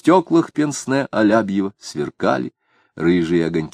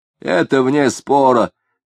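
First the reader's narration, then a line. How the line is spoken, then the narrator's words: Shout. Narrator (Russian): крикнул кто-то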